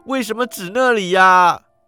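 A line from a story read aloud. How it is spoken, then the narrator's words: Shouting. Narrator (Chinese): 石古基喊道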